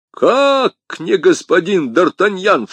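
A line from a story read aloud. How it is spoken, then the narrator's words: Shouting official. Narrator (Russian): закричал комиссар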